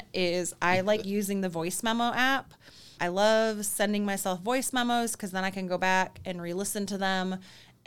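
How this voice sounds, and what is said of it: Thick Michigan Midwestern accent. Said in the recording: “Thick Michigan accent. ... That thick Michigan, Midwestern accent”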